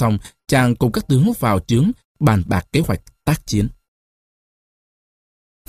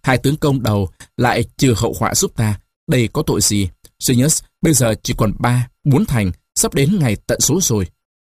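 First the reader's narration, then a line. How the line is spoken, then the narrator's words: Loud laughing. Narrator (Vietnamese): Caesar cười lớn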